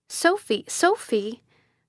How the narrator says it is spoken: I again cried

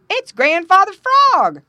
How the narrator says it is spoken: cried Paddy the Beaver

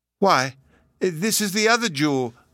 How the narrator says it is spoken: cried

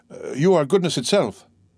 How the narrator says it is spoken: exclaimed Dantès

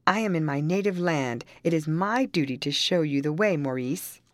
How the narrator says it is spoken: Rita, exclaiming

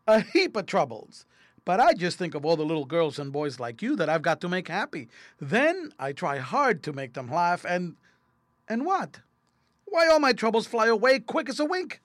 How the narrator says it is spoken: laughed Toady

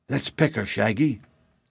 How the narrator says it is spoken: Betsy whispered to her companion

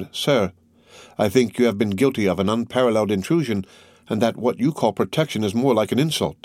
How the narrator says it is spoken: with an indignant expression of pride and modest fear exclaimed

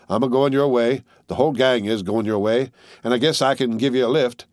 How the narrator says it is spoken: he said, with a round laugh

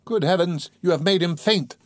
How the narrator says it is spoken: cried Pulcheria Alexandrovna

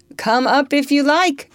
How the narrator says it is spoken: George called out

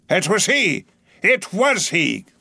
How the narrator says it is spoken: cried, suddenly letting out his suspended breath

